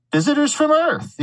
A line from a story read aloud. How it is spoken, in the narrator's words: he bellowed